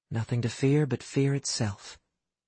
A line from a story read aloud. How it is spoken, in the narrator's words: In a low voice, Astrid said